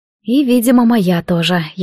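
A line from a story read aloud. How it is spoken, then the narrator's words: Sigh. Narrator (Russian): я вздохнула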